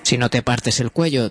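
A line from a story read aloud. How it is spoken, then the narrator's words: Plain. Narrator (Spanish): dijo Garnet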